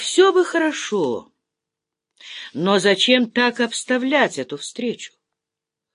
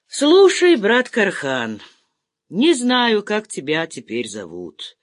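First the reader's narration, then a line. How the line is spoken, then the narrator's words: Lazy, suppressing a burp. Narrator (Russian): начал генерал, лениво подавляя отрыжку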